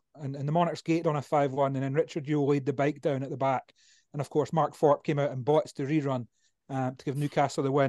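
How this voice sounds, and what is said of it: Scottish Edinburgh accent. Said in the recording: “you can probably tell by, certainly if not by Scott's accent, by mine. I'm Edinburgh based”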